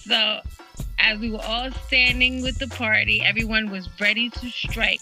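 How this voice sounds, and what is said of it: Spanish accent. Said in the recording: “my Spanish accent gets in the way”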